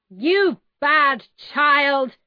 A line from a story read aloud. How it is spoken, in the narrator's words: my mother shouted